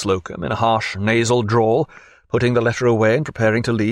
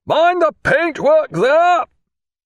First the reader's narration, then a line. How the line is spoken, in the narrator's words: he added in a powerful voice